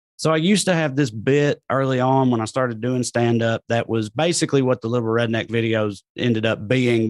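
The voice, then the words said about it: Southern rural American accent. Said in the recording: “everybody hears my accent, thinks I'm a dumbass hillbilly ... hear my accent on TV”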